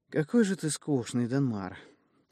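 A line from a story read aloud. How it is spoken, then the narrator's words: Girl's sorrowful sigh. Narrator (Russian): горестно выдохнула девчонка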